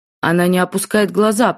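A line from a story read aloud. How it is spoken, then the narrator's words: Growl. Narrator (Russian): прорычал тот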